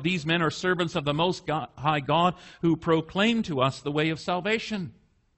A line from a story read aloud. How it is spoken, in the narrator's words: she cried out